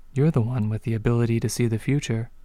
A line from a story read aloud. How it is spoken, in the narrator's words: the doctor said, her voice gentle